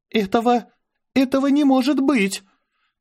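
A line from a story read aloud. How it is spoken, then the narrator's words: Choked gasp. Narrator (Russian): Аня сдавленно выдохнула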